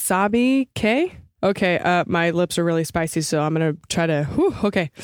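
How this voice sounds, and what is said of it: Usual voice. Nothing is said of it.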